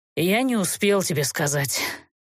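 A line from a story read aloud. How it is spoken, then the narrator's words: Hopeless sigh. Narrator (Russian): безнадежно вздохнул Герт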